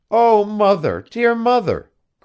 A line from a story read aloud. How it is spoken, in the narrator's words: cried Ernest